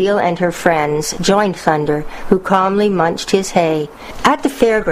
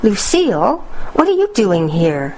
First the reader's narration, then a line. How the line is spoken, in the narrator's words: exclaimed Thunder